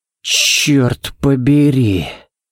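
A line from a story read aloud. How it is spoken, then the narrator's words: Breathed out. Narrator (Russian): Выдохнул Балок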